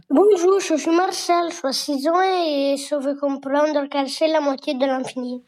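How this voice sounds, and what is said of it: Child with a slight charming accent. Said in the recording (French): “ton petit accent, je ne sais pas d'où il vient, mais qui est absolument charmant”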